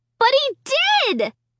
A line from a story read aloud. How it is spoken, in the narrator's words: I screamed